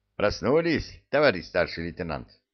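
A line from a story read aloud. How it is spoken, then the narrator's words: Cheerful greeting. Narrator (Russian): Весело поприветствовал он меня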